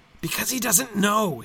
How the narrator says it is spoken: hissed Gollum

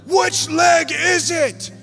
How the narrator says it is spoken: He starts yelling

